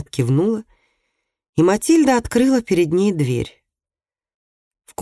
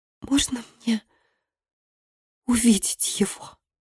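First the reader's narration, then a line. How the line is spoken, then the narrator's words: Whispered. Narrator (Russian): прошептала гостья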